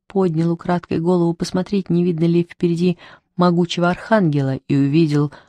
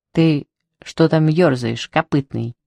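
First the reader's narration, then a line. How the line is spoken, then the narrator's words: Angry question, cat. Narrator (Russian): сердито спросил кот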